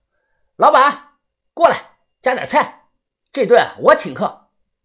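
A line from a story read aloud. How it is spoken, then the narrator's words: Shouting at top voice. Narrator (Chinese): 豆芽仔他扯着嗓子大喊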